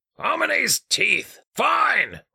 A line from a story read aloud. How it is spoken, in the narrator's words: Richter spat